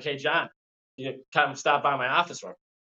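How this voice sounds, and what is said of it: Imitated East Coast accent. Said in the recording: “got an East Coast accent.”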